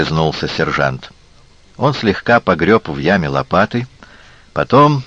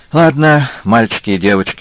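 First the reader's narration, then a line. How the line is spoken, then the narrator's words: Glum. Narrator (Russian): уныло сказал Янис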